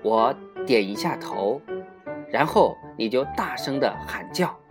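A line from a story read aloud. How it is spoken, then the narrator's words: Speaking quietly. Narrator (Chinese): 桑乔仔细检查了猎枪，然后小声地对桑桑说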